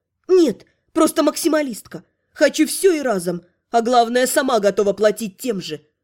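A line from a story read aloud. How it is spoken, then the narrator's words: Grumbled reply. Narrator (Russian): Буркнула в ответ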